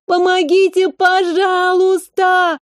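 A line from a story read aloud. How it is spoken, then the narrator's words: Girl sobbing, close by. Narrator (Russian): Девочка, судя по всему, рыдала навзрыд, уже совсем близко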